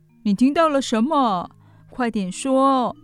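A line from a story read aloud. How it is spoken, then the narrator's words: Pleading question. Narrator (Chinese): 阿帕卡鸠哀求般的问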